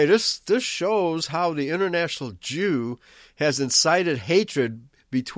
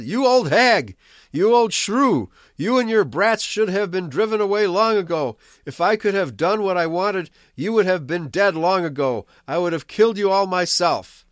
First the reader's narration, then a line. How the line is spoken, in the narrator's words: he yelled